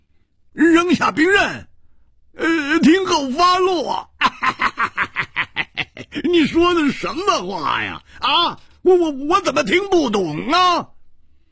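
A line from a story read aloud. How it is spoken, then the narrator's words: Loud mocking laughter. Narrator (Chinese): 胡铁花仰天大笑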